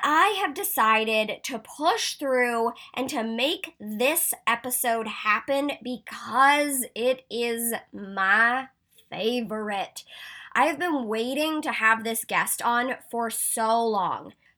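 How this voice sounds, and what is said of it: Sick voice with sniffles. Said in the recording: “you'll hear it in my voice a little bit today. I have been on the mend. I'm a little sicky McSickerson ... as you hear me sniffle, sniffle, cough”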